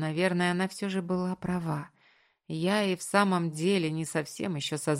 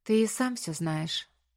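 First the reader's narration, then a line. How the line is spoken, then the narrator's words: Quiet reply. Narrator (Russian): отозвалась она тихо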